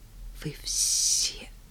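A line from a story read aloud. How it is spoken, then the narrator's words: Whispered. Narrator (Russian): Рада прошептала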